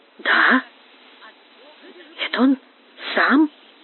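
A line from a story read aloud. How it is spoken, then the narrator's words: Whisper. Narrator (Russian): прошептал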